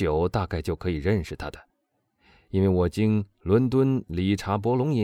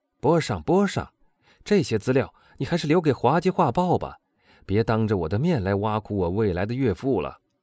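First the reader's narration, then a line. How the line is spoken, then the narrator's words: Laughing, interrupting. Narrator (Chinese): 马尔塞夫大笑着插进来说道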